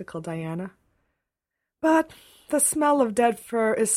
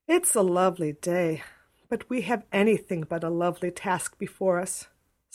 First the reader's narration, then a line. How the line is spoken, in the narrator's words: sighed Diana